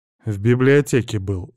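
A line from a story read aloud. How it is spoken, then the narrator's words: Dry reply. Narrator (Russian): сухо ответил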